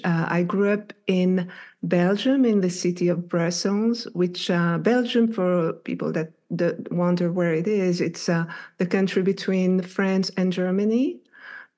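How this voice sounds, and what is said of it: French accent. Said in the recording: “I love your accent ... My accent is actually, I'm French. My first language is French.”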